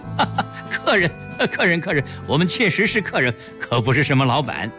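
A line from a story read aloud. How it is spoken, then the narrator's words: Laughing. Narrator (Chinese): 齐长鹏笑着说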